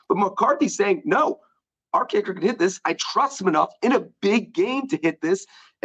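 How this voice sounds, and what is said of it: Hoarse, strained voice. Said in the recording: “You're getting choked up. ... Your voice. ... that's my voice. ... That hacking you were doing before the show makes a little more sense now that you're losing your voice.”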